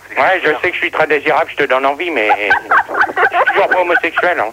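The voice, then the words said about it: Character voice with North African accent. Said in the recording (French): “avec la voix de Gérard ... Tu prends un peu l'accent de couscous”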